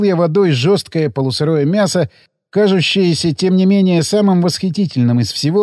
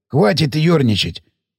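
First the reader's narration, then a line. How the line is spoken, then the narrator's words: Upset hoarse voice. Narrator (Russian): огорчился сиплый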